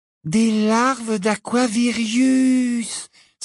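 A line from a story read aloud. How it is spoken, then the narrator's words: Enthusiastic exclamation. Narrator (French): s'exclama Luna avec enthousiasme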